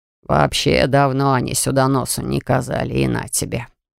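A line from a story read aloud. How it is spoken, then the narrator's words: Grumbling. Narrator (Russian): ворчал Аллан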